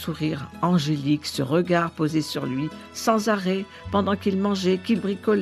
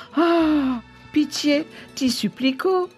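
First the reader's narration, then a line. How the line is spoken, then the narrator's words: Pleading. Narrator (French): suppliait Angelo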